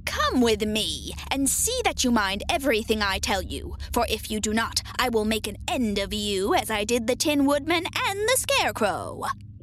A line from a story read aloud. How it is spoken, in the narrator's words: she said to Dorothy harshly and severely